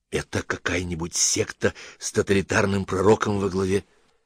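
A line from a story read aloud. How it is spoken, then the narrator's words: Anxious whisper. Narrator (Russian): тревожно шепнул доктор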